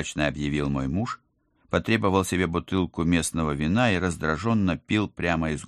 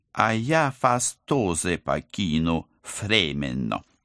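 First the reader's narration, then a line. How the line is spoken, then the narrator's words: Lisping apology. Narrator (Russian): извинился агент 013, шепелявя не хуже кулиманы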